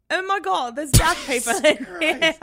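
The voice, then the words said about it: Bad imitation of Australian accent. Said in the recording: “my bad attempt at an Australian accent ... my eardrums really just burst hearing that ... It was a little better. Second time, a little better.”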